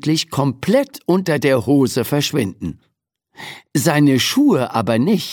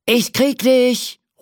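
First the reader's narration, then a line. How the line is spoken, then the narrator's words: Shouted while chasing. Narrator (German): ruft der Cowboy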